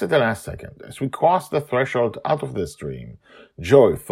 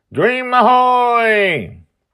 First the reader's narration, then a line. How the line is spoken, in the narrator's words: Joy shouts